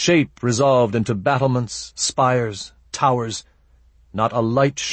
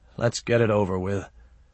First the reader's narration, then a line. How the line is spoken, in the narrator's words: Resigned, he muttered